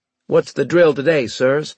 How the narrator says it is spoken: I asked in a hearty tone

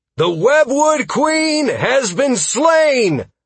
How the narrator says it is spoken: I shouted

